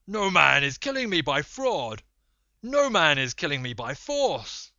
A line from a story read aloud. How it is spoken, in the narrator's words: Polyphemus shouted to them from inside the cave